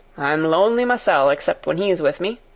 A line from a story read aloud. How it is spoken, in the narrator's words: he answered, and then he added with a surly chuckle